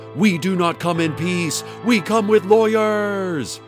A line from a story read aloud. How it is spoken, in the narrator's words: Hadassah screamed at Dana